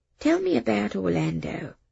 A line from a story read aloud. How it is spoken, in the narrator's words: she said softly